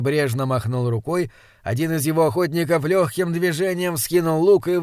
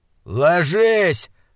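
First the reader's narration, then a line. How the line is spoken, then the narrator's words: Shout. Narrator (Russian): закричал Инген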